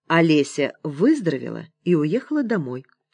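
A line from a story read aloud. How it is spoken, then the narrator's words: Calm. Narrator (Russian): спокойно ответила учительница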